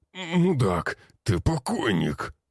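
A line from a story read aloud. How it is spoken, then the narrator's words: Wheezing in pain. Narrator (Russian): захрипел тот, корчась от боли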